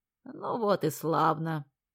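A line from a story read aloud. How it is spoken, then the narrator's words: Tired voice. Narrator (Russian): проговорила она уставшим голосом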